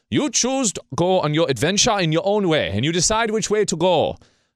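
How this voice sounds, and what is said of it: Playful put-on voices and accents. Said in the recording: “I don't know which voices I'm doing here, accents”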